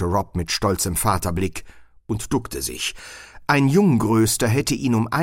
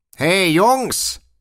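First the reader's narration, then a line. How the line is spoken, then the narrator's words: Call. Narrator (German): rief Rob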